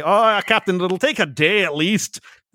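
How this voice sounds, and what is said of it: Bad Scottish accent, Scotty impression. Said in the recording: “it's like Scotty from Star Trek ... in a terrible Scottish accent.”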